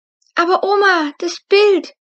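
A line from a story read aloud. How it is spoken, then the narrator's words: Called out. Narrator (German): rief Luna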